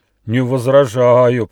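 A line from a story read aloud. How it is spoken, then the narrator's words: Monstrous growl. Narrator (Russian): прорычал ужасный восьминог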